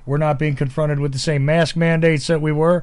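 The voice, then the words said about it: Georgia Southern US accent. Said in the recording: “I live in Georgia. I know you can tell from my accent, right?”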